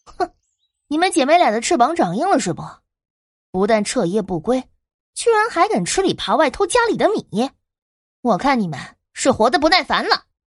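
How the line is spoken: Sarcastic light laugh. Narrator (Chinese): 身后传来了一声讽刺的轻笑声

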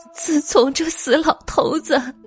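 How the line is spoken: Crying. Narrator (Chinese): 朱陈氏哭道

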